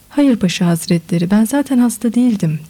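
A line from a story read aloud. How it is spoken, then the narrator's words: Plain. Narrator (Turkish): dedi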